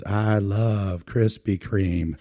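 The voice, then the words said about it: Put-on Southern US accent. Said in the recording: “You have to say it with a Southern accent.”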